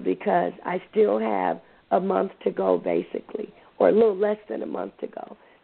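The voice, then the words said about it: Scratchy, raspy, strained voice. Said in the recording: “My voice sounds a little scratchy ... sounding so sexy and so raspy with my voice because it's almost giving out”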